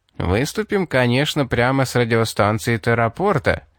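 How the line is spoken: Mocking. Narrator (Russian): насмешливо спросил Али

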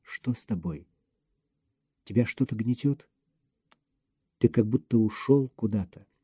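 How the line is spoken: Quiet question. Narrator (Russian): тихо спросила

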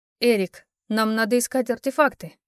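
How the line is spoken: Stern clarification. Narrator (Russian): строго уточнила я

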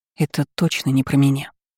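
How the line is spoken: Exhaled. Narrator (Russian): выдохнула я

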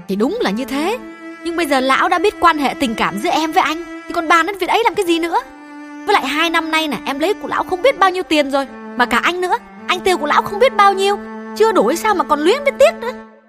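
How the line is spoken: Angry loud interruption. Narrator (Vietnamese): Hương chưa nguôi giận, lớn tiếng ngắt lời

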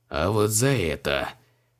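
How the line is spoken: Grinding through teeth. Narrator (Russian): проскрипел зубами маг

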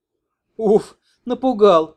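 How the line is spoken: Laughing. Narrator (Russian): засмеялась бывшая секс-рабыня

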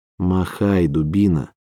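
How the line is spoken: Hissing through a smile. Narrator (Russian): Хлоя процедила сквозь свою улыбку

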